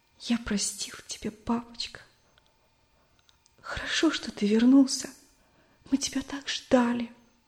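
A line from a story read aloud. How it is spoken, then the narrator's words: Child's sobbing whisper. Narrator (Russian): Мальчик шептал, всхлипывая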